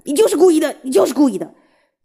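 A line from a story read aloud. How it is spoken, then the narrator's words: Exasperated roar. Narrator (Chinese): 爸爸实在忍不住吼起来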